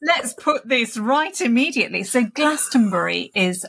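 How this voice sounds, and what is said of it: Usual voice. Nothing is said of it.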